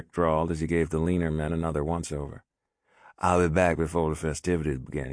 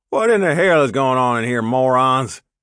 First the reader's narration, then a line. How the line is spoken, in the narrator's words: Dwayne barked